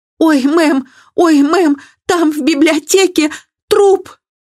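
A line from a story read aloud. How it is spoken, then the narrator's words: Maid bursting into hysterical sobs. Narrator (Russian): разразившись истерическими рыданиями, служанка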